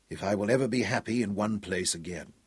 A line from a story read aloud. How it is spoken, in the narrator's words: he whispered